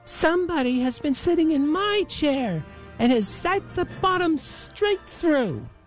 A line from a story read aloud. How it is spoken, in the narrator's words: said the Little Wee Bear in his little wee voice